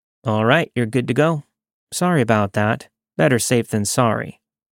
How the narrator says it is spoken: quickly said

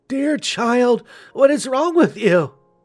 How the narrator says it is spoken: cried

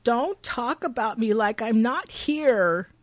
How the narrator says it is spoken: Shelby cries

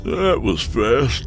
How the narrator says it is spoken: yawned

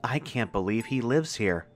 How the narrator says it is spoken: Clay whispered

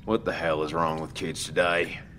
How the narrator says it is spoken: Dale sighed

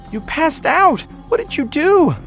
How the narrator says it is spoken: I demanded, fear turning my voice into a shrill cry

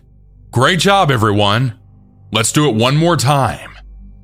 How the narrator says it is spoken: he was so happy he shouted

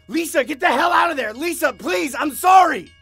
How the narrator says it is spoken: Desperately trying to stop her

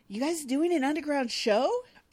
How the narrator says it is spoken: Boomer asks excitedly

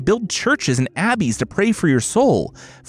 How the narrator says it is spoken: Felice pleaded

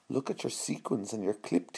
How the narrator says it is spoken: whispered to cheer her up

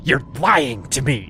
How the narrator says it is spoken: She spat some more

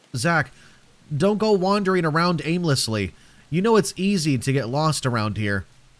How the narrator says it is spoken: I shouted

